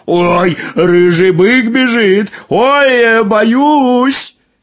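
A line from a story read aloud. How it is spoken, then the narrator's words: Mock-frightened shout. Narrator (Russian): Нарочно испугался и закричал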